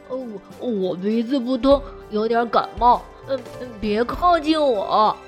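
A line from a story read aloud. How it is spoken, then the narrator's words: Muffled odd voice. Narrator (Chinese): 小熊的声音透过口罩有点古怪，他说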